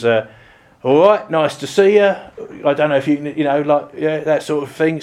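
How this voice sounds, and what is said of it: Cockney East End London accent. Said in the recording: “a Cockney from the East End of London, she had two accents. Her normal voice was ... slightly different sort of East End accent”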